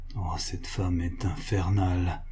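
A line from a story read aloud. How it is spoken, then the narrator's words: Financier murmuring. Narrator (French): murmura le financier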